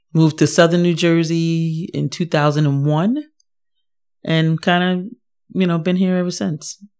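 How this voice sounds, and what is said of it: New York accent. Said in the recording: “I still have a New York accent ... You from New York?”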